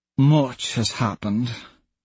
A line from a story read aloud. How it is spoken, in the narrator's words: Mickey murmurs